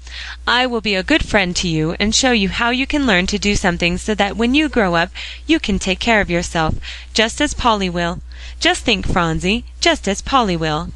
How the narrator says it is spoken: cried Mrs

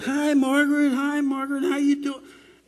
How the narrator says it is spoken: all those kids would start hollering

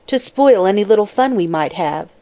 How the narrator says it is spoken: asserted Mabel, bitterly

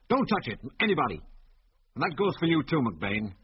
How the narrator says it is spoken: he went on curtly

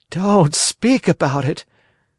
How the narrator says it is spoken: wailed Pinocchio, still trembling with fright

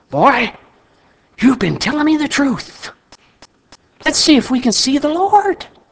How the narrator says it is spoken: the old man whispered

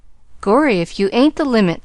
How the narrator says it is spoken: chuckled the youth unexpectedly

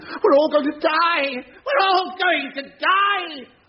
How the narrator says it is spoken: He was screaming

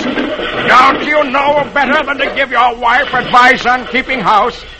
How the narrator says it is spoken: yells for help

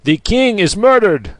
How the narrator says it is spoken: angrier shouts

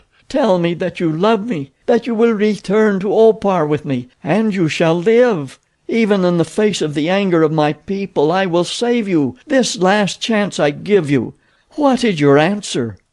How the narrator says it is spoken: she moaned

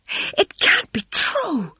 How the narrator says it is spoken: she cried suddenly

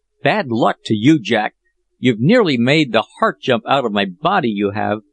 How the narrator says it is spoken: Peterkin exclaimed

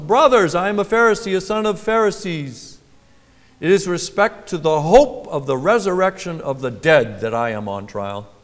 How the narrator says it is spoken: he cried out in the council

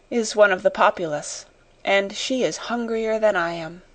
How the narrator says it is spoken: she said to herself, with a little sigh

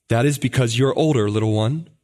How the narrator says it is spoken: answered he

